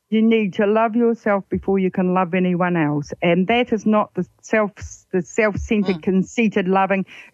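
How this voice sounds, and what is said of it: New Zealand accent. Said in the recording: “That's your Kiwi accent. It's a lovely accent.”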